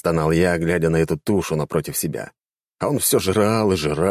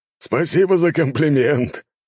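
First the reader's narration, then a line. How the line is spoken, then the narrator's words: Swollen man laughing. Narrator (Russian): рассмеялся распухший мужчина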